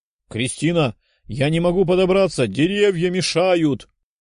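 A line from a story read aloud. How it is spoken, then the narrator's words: Shouted reply. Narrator (Russian): крикнул кентавр в ответ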